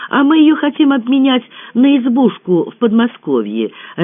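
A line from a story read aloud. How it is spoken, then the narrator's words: Joyful announcement. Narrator (Russian): радостно возвестила Лена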